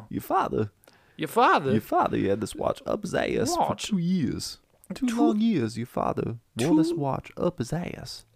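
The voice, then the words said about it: Bad Christopher Walken impression. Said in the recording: “We're both terrible at Christopher Walken”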